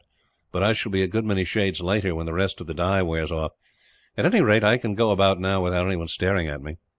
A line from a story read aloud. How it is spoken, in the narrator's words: Stanley laughed